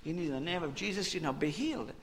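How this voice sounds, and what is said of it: Put-on Texan preacher accent. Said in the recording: “you need a Texan accent for this”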